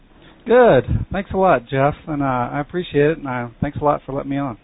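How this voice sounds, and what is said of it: Texas twang. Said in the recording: “that Texas twang”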